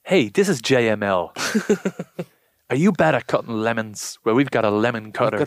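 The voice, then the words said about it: Put-on American infomercial voice. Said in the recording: “an American accent ... Infomercials.”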